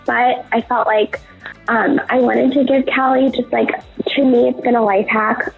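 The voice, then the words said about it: Sick-sounding voice. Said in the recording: “Please excuse my voice. I'm obviously sick”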